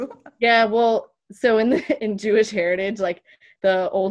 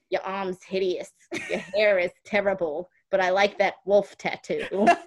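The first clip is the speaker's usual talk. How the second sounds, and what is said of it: Put-on New York accent. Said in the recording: “you cued your New York accent ... Oh, that's how she talks.”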